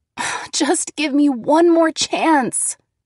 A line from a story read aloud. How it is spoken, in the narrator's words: I begged